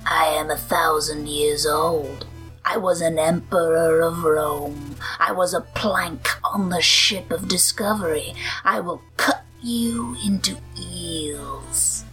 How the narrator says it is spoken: he rasped

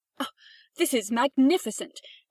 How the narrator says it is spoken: cried the rocket

